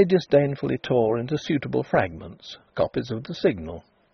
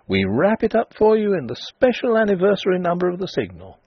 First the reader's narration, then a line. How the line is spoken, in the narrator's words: the men cried